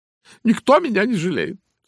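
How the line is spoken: Sobbing. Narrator (Russian): всхлипывала она

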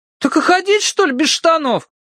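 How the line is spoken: Wailing. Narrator (Russian): взвыл Тенька

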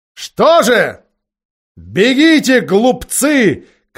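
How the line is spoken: Witch's shout. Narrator (Russian): крикнула колдунья

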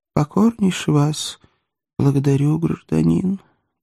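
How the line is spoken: Sad. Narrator (Russian): так же грустно сказал человечек

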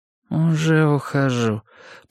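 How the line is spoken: Mumbling woman. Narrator (Russian): промямлила женщина

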